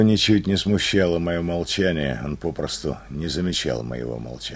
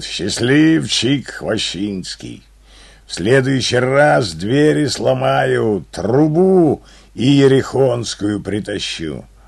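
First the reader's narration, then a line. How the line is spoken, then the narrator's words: Booming astonished roar. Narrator (Russian): Он трубно и изумленно рычал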